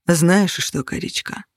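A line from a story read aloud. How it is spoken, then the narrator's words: Cold steely tone. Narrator (Russian): Соблазнительное мурлыканье в голосе Кости сменилось холодной сталью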